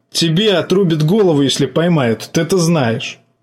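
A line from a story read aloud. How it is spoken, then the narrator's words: Nervous laugh. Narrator (Russian): жаба нервно хохотнул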